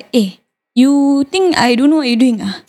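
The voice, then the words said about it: Put-on stereotyped accent in English. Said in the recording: “You hear the accent? Oh, you stereotype my English, huh?”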